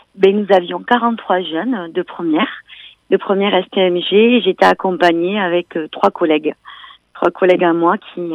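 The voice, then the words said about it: Lilting regional French accent. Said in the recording (French): “ce petit accent qui chantonne”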